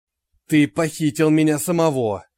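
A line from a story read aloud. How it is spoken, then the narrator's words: Angry growl. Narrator (Russian): сердито прорычал настоящий Джек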